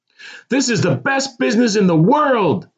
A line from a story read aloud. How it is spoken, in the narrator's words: screamed